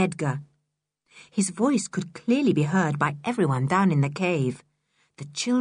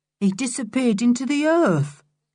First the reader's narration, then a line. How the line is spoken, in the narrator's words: said Edgar in a surprised voice